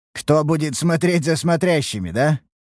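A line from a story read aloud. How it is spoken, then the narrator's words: Knowing snort. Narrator (Russian): хмыкнул я понимающе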